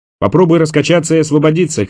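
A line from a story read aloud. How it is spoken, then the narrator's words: Shouting. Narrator (Russian): крикнул ему Борис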